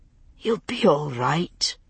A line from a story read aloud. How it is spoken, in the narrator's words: Roger whispered to her